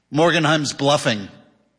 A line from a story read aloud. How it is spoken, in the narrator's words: said Ebling